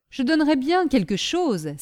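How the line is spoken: Exclaiming. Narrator (French): s'écria Michu

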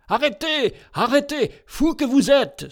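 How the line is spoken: Exclaimed. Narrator (French): s'écria-t-il

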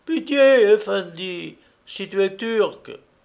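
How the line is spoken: Pleading for a friend. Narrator (French): Omer intervient, supplie le cadi en faveur de son ami

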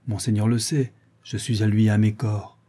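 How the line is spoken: Cold. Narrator (French): répondit froidement le noir

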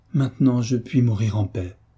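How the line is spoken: Exclaimed. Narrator (French): s'écria madame de Beauménil

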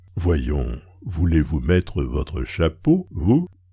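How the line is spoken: Gruff, slightly sulky, familiar. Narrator (French): dit-elle à Swann, d'une grosse voix un peu maussade, en amie familière

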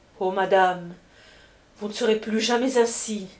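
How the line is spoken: Amazed exclamation. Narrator (French): s'écria Prudence Servien, stupéfaite de la sublime beauté de sa maîtresse

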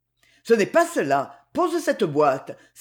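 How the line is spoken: Sharp exclamation. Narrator (French): s'écria vivement M

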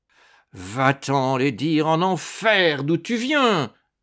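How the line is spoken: Roared. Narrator (French): rugit Gargogno

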